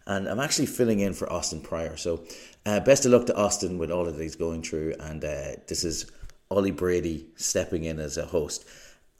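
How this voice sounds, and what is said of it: Irish accent. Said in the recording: “as you might be able to tell from my uh, accent here, I'm I'm one of the Irish people”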